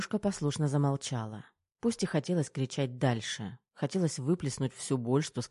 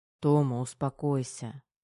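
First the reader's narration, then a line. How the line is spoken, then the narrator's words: Tired colonel. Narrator (Russian): устало проговорил полковник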